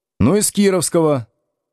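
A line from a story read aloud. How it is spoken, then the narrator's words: Smirking grunt. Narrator (Russian): хмыкнул один из кирпичей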